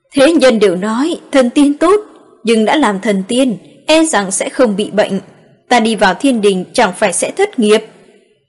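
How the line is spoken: Loud laugh. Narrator (Vietnamese): Ngô Tuấn cười lớn một tiếng

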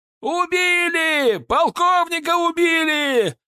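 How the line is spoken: Distant shouting from wall. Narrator (Russian): закричали со стены

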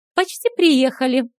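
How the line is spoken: Joyful announcement. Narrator (Russian): радостно сообщила Стесси

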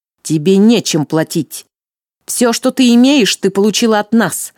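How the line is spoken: Spiteful smirk. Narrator (Russian): Злобно усмехнулась Орестея

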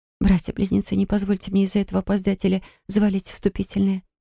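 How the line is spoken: Whisper. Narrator (Russian): прошептала

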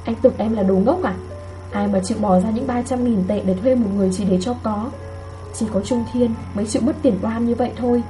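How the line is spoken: Soft. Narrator (Vietnamese): Lương Duyệt khẽ nói

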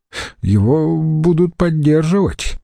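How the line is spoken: Hesitant interjection. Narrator (Russian): неуверенно осмелился вставить Брут

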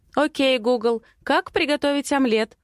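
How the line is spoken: Loud, into phone. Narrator (Russian): Говорю громко в смартфон Матвея

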